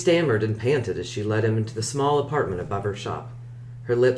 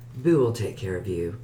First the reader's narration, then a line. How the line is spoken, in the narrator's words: She purred